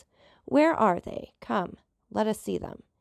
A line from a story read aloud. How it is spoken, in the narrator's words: inquired Caderousse in a hoarse voice